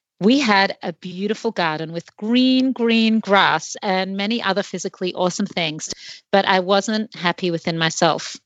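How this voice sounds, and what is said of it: Australian accent. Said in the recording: “I'm from Australia. I guess you can hear from my accent.”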